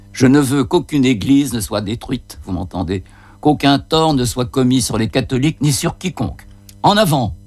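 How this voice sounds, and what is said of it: Occitan accent with rolled r's. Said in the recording (French): “son accent occitan qui roule les airs”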